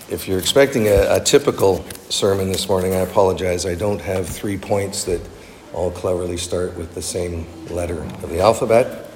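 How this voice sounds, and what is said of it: Deep, husky voice from illness. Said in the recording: “I'm still recovering from whatever that bug was that I had, so I have my FM radio voice this morning”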